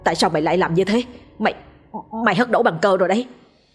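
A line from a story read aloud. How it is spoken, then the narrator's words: Pale, harsh question. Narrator (Vietnamese): Lòng tái mặt nó gằn giọng hỏi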